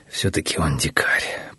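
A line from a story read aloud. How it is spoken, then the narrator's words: Sighing to himself. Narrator (Russian): про себя вздохнул Наму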